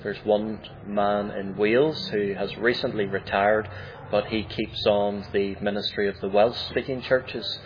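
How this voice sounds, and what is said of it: Northern Irish accent. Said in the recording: “your accent is a little bit different than maybe a standard, what we would think of as a standard English accent ... I have a Northern Irish accent”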